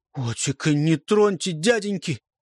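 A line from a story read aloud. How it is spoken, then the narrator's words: Cry out. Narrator (Russian): вскрикнул Вережко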